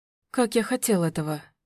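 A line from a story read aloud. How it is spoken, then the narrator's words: Whispered. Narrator (Russian): шептал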